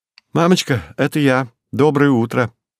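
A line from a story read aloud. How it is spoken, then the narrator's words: Joyful. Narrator (Russian): радостно сообщила Александра, наклонившись к домофону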